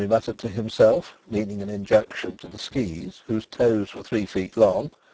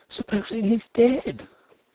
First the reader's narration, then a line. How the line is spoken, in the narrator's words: Nelly breathed, aghast